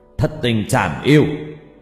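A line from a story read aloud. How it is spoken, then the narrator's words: Old man shouting. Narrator (Vietnamese): Cụ hét lên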